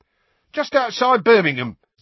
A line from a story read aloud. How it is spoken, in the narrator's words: said Stan happily